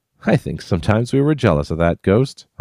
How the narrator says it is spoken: I said to Tom, chuckling as though I were joking

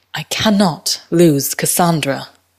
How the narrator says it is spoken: she said

